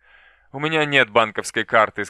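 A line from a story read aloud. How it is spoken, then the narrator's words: Bitter laugh. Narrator (Russian): сказал Дзян Тянь, горько рассмеявшись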